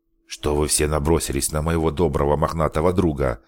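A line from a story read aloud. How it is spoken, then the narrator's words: Grumbled. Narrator (Russian): проворчал Алекс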